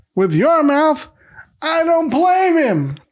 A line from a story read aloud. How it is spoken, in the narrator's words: a neighbor yells back